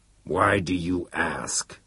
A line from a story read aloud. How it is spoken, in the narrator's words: The boardmaster grunted his words as if they were being squeezed out singly